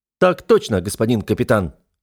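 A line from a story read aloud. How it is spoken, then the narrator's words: Barked. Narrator (Russian): рявкнул я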